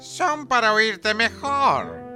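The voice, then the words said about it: Thin, high-pitched put-on voice. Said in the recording (Spanish): “poniendo voz finita”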